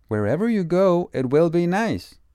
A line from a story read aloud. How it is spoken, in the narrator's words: Betty shouts again